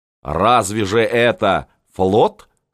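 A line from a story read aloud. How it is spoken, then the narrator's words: Angry huffing. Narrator (Russian): сказал Саймонов, сопя сердито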